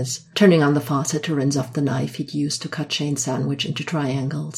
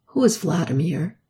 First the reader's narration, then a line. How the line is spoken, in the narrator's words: asks flatly